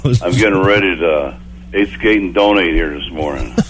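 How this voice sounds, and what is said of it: Deep, low morning voice. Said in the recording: “You sound down... You still sound like you're recovering... when I first get up in the morning, my voice is kind of deep... You're like Barry White”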